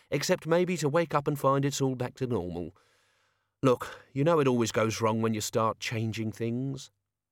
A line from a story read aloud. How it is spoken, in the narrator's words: Albert sighed